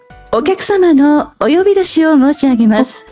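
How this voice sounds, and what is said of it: Department store announcer voice. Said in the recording (Japanese): “ウグイス嬢とかデパートの、...なんかよく呼び出しあるじゃないですか、こういう感じで。”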